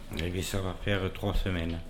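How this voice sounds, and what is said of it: Southern French accent. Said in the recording (French): “Il vient d'où cet accent ? ... Du sud, mais du sud-sud, pas du midi moins le quart. ... Les Hautes-Pyrénées.”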